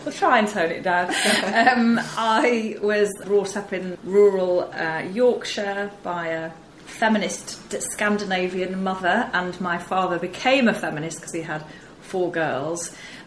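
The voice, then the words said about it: Northern English Yorkshire accent. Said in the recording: “I'm a northerner, as you can probably tell from the twang.”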